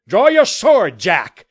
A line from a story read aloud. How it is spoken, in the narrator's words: Jameson cried